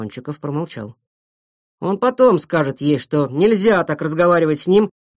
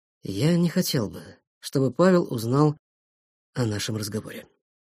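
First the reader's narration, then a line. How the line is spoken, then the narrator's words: Quiet request. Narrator (Russian): тихо попросил Веткин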